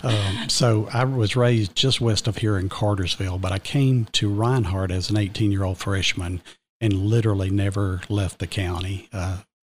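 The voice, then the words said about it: Georgian Southern accent. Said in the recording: “you can tell from my brogue that I'm a Georgian. I can't convince anybody that I'm from Connecticut or Vermont or Jersey”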